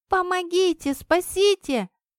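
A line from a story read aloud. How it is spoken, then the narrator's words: Scream. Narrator (Russian): закричала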